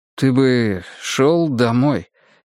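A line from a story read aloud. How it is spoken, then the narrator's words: Uncertain. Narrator (Russian): неуверенно сказал Ломов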